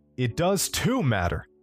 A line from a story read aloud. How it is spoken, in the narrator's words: I shouted back